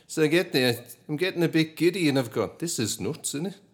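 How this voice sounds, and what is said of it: Attempted Manchester accent. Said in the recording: “attempt the Manchester accent? ... I'm not very good at it. ... I might get halfway through and it'll become another accent.”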